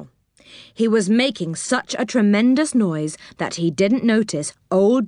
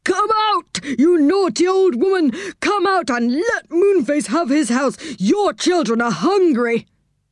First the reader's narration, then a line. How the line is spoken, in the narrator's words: He shouted at the top of his voice